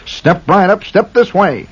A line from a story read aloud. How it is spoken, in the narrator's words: cried the barker